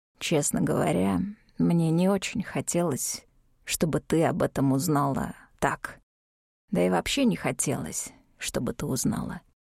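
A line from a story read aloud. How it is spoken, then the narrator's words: Hoarse. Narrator (Russian): сказал хрипло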